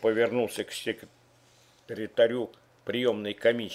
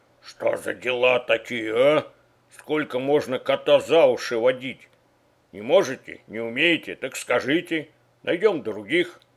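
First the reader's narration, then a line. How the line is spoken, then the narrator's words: Irritated hiss. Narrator (Russian): прошипел раздраженно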